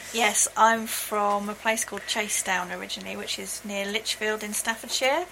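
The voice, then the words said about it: Faint Brummie accent, flat A. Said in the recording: “there's a little bit of a burr there ... I've lost a large part of my Brummie accent, if you like, yeah, that I used to have, but there's still the twing there. I still say grass and bath and class, yeah, with a flat A rather than an R.”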